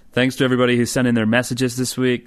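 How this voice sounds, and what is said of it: Put-on American accent. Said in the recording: “do you want to use an American accent for the rest of the podcast?”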